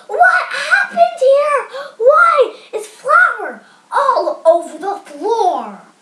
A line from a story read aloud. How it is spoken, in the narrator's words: Their mother screamed